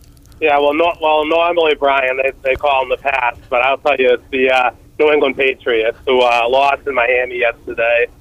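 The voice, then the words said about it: Strong Boston accent. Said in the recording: “you give it to me in your Boston accent ... That's, to me, that's amazing”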